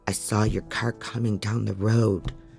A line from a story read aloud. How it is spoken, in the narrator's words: Ryan says, his voice in a shamed mumble now